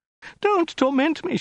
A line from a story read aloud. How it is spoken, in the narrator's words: she wailed